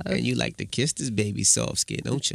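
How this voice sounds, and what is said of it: Husky old-man seductive voice. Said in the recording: “Why do you have to sound like an old man when you do that? ... My little sexy voice.”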